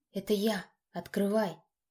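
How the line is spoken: Whispering. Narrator (Russian): почему-то шепотом проговорил я

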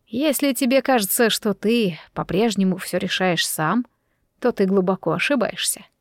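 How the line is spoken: Soft. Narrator (Russian): мягко начал он

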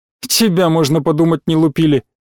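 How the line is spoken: Sheep's scoffing grunt. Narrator (Russian): хмыкнула овца Анютка

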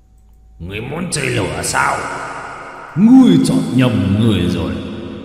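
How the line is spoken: Roared. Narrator (Vietnamese): Dao long gầm lên

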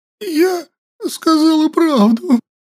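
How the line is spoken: Frightened hoarse girl. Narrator (Russian): жмурясь от страха, прохрипела девушка

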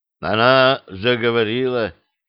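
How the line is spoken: Lifeless voice, Latvian man. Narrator (Russian): спросил латыш безжизненным голосом, в котором не было ничего, что может привязывать человека к земле

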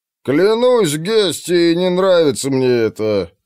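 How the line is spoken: Gatekeeper grumbling. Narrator (Russian): проворчал привратник

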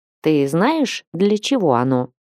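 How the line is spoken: Plain. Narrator (Russian): спросила она

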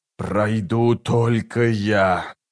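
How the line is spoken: Hissed. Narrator (Russian): прошипел чародей

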